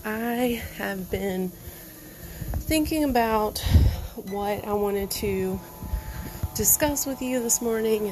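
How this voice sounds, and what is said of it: Out of breath while talking. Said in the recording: “If I sound like I'm out of breath, I'm doing this from the treadmill”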